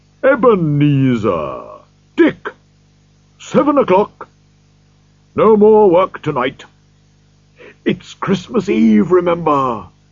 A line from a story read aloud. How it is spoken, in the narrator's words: he started laughing as he called out in a rich, deep, happy voice